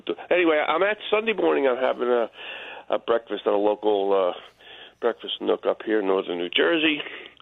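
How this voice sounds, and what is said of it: Congested, altered voice. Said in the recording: “I got a little allergy. My voice has changed a little bit.”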